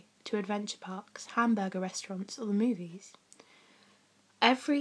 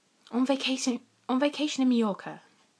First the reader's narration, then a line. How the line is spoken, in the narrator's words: snapped Aunt Petunia